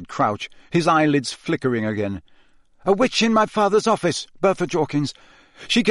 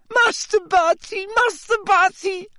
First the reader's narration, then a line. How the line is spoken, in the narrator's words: sobbed Winky through her hands